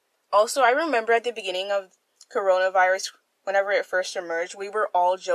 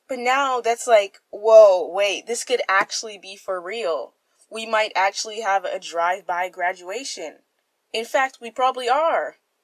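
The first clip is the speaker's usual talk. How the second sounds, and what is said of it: Loud, yelling voice. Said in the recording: “I'm yelling.”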